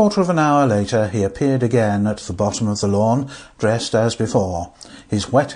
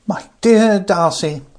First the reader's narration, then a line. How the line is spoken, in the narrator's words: cried Frank